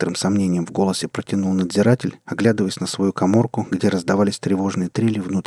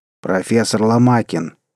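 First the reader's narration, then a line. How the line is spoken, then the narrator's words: Stern. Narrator (Russian): строго сказал надзиратель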